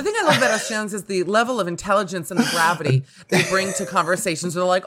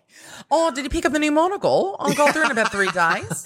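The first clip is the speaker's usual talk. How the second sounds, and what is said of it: Put-on Australian accent. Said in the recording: “Loved that's it. really good because I think that's actually the hardest accent.”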